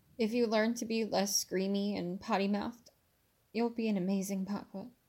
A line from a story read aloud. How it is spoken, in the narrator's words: she said